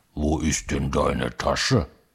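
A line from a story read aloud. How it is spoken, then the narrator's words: Gruff bearish grumble. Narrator (German): ein Braunbär in der Wohnung, der brummt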